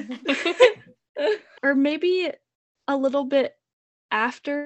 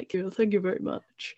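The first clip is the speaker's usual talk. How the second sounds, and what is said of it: Elvis impression. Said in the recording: “best impression ever”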